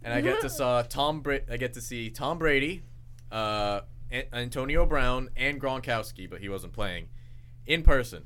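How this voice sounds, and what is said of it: New England accent. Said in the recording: “I don't know if you could tell through my accent, but I'm from New England.”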